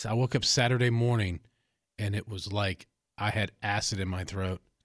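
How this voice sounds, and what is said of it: Audibly sick, sore-throat voice. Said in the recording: “as you can probably tell by my voice, is I got strep”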